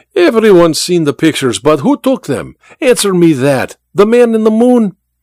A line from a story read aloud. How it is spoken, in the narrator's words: Vera laughed at the memory